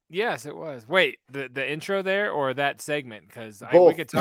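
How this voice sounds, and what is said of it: Usual voice. Nothing is said of it.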